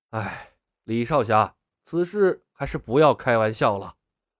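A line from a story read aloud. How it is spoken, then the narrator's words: Gloomy sigh. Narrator (Chinese): 龙啸云神色黯然，叹道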